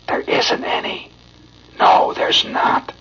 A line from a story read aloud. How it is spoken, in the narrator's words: whispering low to every tot